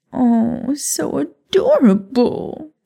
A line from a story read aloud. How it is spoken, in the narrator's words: she said with a patronizing chuckle